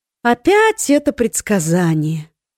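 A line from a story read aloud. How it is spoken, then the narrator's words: Tired drawl. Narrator (Russian): устало протянула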